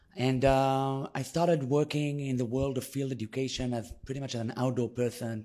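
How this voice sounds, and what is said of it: Israeli accent in English. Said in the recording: “as you can hear by my accent, I was born in Israel”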